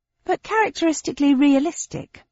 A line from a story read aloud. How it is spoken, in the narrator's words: said cheerfully